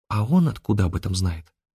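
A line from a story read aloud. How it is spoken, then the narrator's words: Whispered question. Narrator (Russian): шепотом спросила она у Афанасия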